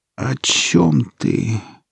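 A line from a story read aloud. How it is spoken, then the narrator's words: Weary, resigned exhale. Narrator (Russian): устало выдохнула девушка, уже попрощавшаяся с жизнью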